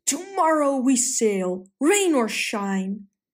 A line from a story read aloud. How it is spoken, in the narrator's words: roared